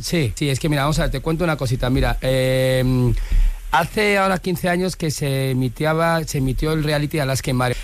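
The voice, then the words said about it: Valencian Spanish accent. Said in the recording (Spanish): “habla todo el rato con acento valenciano.”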